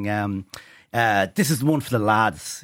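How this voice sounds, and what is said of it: Put-on Polish accent. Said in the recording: “In his Polish accent.”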